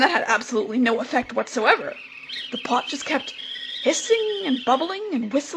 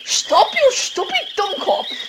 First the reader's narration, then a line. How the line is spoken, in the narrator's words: she yelled